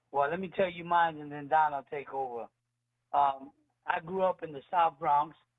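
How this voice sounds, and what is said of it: Southern-sounding American accent. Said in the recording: “I thought you were from Tennessee with that accent”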